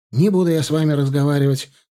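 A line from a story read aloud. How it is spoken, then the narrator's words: Answered while hurrying. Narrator (Russian): ответил он, торопливо шагая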